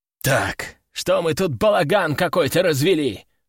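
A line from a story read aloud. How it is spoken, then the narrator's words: Growled. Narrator (Russian): рыкнул трибунальщик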